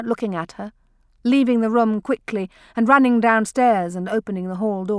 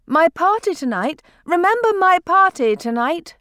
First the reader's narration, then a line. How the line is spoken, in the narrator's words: she cried, having to raise her voice against the roar of the open air